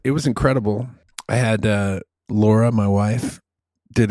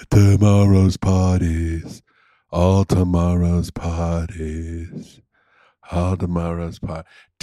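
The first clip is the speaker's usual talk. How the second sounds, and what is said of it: Low, deep-toned female singer impression. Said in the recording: “there's a chick with a really low voice in the Velvet Underground. Let me do my impression of the chick from the Velvet Underground ... this fucking deep-toned bitch on the mic”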